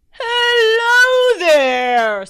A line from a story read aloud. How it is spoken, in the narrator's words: Santa bellowed